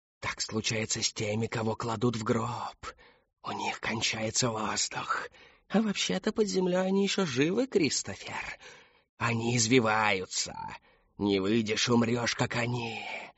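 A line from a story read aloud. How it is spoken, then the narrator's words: Whispering voices. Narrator (Russian): шептали голоса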